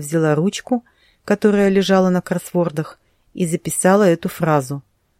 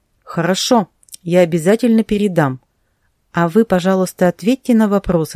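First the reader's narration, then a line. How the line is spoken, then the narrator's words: Plain. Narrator (Russian): сказала Тома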